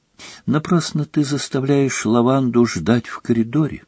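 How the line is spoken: Quiet. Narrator (Russian): тихо проговорила Гермиона

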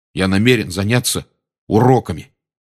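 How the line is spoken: Angry announcement. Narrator (Russian): сердито объявил Рон

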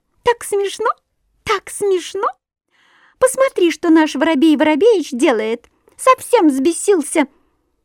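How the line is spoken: Thin high laughing voice. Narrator (Russian): Синичка засмеялась тоненьким-тоненьким голоском

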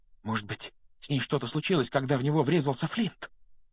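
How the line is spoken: Whispered. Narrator (Russian): прошептал Симус

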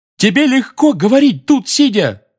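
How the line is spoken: Roar. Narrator (Russian): взревел Фред

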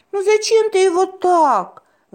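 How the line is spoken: Sighing. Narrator (Russian): вздохнула Малуся

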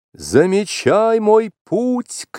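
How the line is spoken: Shouted. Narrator (Russian): крикнул Маугли

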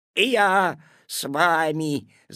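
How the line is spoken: Growling. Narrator (Russian): зарычал куцый

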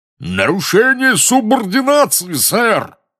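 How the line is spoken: Roaring. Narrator (Russian): взревел дородный волшебник

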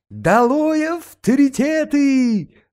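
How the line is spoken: Gleeful harsh shout. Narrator (Russian): закричал Ситников, обрадовавшись случаю резко выразиться в присутствии человека, перед которым раболепствовал

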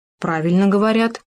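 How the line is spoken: Plain. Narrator (Russian): ответил суслик

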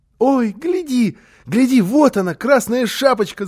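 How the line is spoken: Child's shout. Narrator (Russian): закричал малыш

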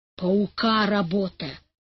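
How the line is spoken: Muttering. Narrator (Russian): бормотал Иван Гермогенович

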